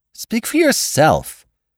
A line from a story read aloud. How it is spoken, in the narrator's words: cried Miss Baedeker violently